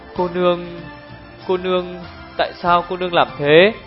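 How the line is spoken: Trembling voice. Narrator (Vietnamese): Hùng Nương Tử run run giọng hỏi

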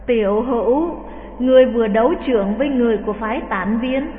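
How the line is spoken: Sighing. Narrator (Vietnamese): Khất Đại Phu thở dài

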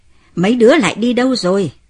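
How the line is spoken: Shouting call. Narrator (Vietnamese): Ông hét lên gọi lũ trẻ

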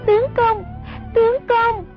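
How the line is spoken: Terrified cry. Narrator (Vietnamese): Sông Nhi hoảng sợ hồn bất phụ thể, kêu lên

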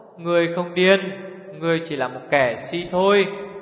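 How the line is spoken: Sighing old woman. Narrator (Vietnamese): Bà thở dài thốt

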